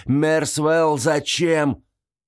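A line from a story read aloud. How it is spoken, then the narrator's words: Shouted. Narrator (Russian): закричал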